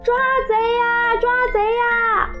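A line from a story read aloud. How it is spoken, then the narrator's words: Shouting. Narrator (Chinese): 马小跳还叫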